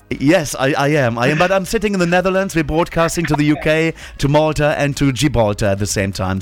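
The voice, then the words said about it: Slight German accent. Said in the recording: “So I have a bit of a German accent.”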